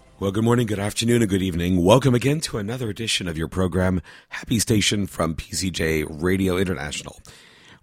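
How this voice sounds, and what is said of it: Hoarse, failing voice. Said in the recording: “I've actually kind of lost my voice, and it's starting to go more and more as we continue with the program today”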